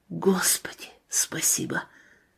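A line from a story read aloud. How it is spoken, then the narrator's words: Breathless whisper. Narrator (Russian): Он перевел дыхание и сказал шепотом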